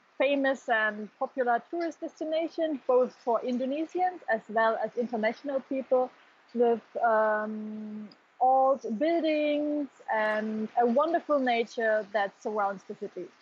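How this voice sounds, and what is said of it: German accent in English. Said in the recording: “it is also quite obvious that your accent in your English is not Indonesian ... I'm from Germany”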